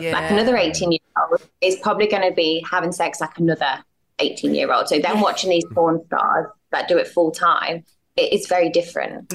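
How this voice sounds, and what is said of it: British accent. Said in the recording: “You've got the accent. I've picked up on that.”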